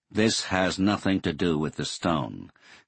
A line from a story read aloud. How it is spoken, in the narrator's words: Colonel Saunders said flatly